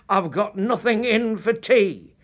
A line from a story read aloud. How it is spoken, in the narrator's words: Clara shouted